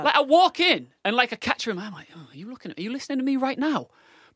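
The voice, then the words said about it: Northern English accent. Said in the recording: “my northern accent”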